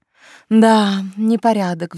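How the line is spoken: Sigh. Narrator (Russian): вздохнула я

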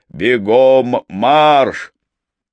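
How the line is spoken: Impatient roar. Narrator (Russian): Он нетерпеливо проревел

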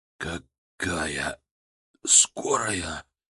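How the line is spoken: Hoarse rasp. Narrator (Russian): прохрипел он

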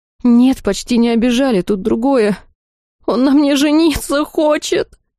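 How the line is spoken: Wailed. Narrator (Russian): Провыла я

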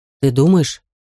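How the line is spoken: Serious, timid boy asking. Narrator (Russian): серьезным тоном спросил другой мальчишка, чересчур робкий и невинный

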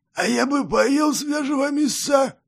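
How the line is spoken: Gloomy, hoarse cold-ridden voice. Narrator (Russian): угрюмо сказал второй, сиплым простуженным голосом

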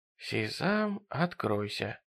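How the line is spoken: Relieved whisper. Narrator (Russian): облегченно прошептал Джерри

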